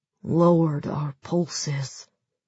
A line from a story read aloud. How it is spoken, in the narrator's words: Sergei mumbled groggily